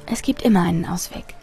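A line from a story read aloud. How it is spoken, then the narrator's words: Quiet. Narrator (German): sagte leise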